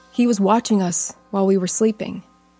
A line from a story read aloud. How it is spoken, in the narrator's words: she said